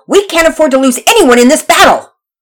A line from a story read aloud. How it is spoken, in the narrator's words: Pearson shouted orders